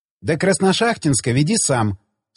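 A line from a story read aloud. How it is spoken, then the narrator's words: Plain. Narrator (Russian): сказала Настя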